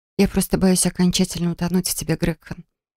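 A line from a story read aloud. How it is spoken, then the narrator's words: Breathless whisper. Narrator (Russian): прошептала я, тяжело дыша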